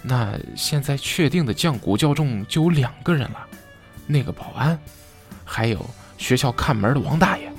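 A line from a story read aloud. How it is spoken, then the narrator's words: Soft voice. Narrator (Chinese): 我轻声说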